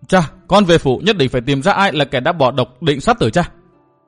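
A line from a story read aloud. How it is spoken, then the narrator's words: Sharp, irritated. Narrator (Vietnamese): Công Tôn Thúy Hà, nàng gắt giọng nói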